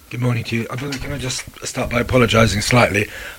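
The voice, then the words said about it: Hoarse, fading voice. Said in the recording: “I am slightly losing my voice here ... It sounds sexy.”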